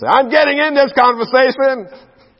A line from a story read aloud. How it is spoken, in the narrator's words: I had to scream and say